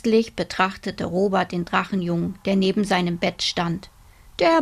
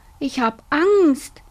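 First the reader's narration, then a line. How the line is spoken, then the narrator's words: Fearful whine. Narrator (German): jammerte Robert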